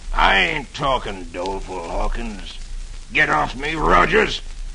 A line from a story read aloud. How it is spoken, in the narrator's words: The outlaw snarls